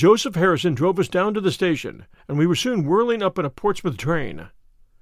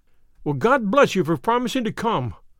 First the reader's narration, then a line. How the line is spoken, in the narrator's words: cried